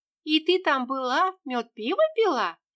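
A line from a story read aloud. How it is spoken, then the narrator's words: Giggling. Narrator (Russian): хихикнула Ксюша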